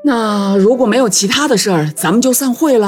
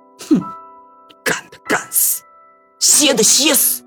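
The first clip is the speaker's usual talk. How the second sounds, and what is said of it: Quiet muttering. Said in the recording (Chinese): “小声嘀咕了一句”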